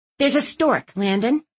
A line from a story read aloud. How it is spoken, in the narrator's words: I snapped